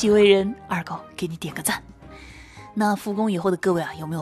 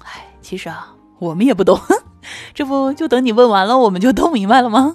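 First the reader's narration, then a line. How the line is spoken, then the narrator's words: Colleague laughing. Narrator (Chinese): 一个同事就笑了，说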